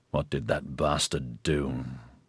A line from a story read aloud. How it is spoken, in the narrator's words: he murmured